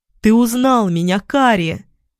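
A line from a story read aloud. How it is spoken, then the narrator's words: Exclamation. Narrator (Russian): воскликнул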